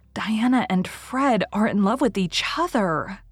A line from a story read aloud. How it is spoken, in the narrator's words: she gasped